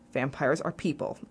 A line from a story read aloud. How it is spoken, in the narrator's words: said quietly, to steady myself